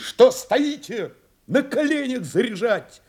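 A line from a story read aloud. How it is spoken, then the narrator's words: Shouted. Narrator (Russian): крикнул Новиков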